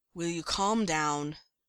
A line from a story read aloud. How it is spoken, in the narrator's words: Derek all but growls